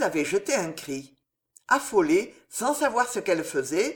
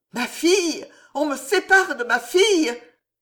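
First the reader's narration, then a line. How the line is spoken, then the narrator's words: Desperate, breaking cry. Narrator (French): s'écria Jeanne, dont toute la résolution tomba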